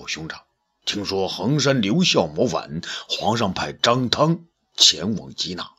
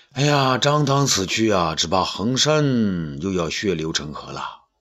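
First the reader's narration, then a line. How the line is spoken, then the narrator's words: Sighing. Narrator (Chinese): 东方朔呢，叹口气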